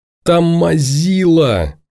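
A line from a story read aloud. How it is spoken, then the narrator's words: Yelling. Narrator (Russian): завопила Леся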